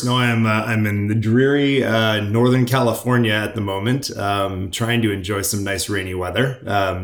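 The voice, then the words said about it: Non-British, not Portsmouth accent. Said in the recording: “judging by the accent, you're not based in Portsmouth”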